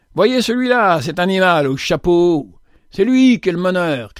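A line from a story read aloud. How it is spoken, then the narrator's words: Harsh shout. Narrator (French): cria une voix dure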